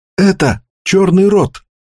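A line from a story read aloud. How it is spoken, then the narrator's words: Whisper. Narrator (Russian): прошептал он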